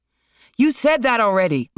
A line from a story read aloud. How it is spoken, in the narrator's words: Marlon shouted